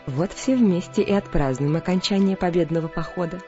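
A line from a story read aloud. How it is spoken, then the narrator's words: Cheerful. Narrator (Russian): весело сказала она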